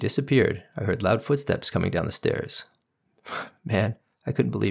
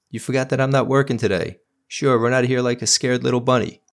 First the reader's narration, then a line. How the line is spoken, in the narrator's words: yelled